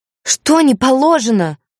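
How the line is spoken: Howling. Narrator (Russian): взвыла я

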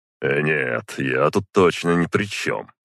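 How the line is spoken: Snort. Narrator (Russian): хмыкнул я

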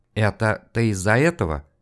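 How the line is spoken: Reluctant forced mumble. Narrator (Russian): промямлил через силу Коротков

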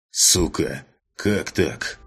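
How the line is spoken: Growled through clenched teeth. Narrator (Russian): Сквозь зубы прорычал друг

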